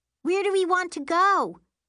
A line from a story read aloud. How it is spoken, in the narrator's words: Miri shouts from the front